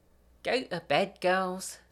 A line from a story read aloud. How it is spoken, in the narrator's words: Gemma says lazily